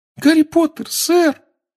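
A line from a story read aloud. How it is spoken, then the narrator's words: Trembling squeak of an elf. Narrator (Russian): пропищал эльф, дрожа с головы до пят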